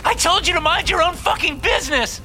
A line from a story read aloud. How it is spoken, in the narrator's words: She screams, backing away from me